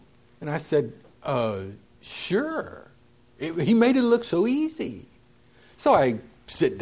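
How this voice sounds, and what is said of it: Usual voice. Nothing is said of it.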